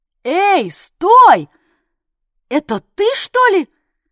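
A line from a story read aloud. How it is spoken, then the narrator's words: Yelling after someone. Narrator (Russian): заорал Дятлов ему вслед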